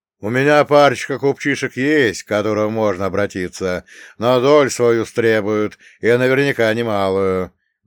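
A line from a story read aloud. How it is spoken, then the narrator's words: Loud. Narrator (Russian): громко произнес Нелюб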